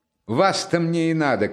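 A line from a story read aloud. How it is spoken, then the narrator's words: Shouting. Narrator (Russian): крикнул он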